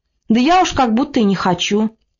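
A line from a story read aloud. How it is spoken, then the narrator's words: Meek, uncertain answer. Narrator (Russian): Она отвечала покорно и неуверенно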